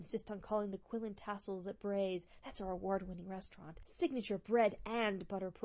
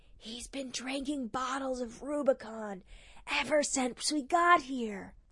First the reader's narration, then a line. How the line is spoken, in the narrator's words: She loudly whispered